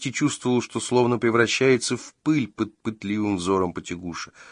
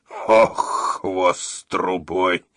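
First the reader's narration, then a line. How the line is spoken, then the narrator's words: Hoarse wheeze. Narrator (Russian): прохрипел он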